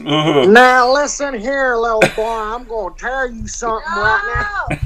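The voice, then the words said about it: Put-on Deep South accent. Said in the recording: “a Deep South accent... some good old boy start speaking”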